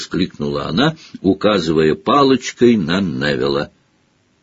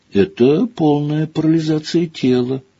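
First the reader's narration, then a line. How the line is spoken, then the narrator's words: Sad reply. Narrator (Russian): грустно ответила Гермиона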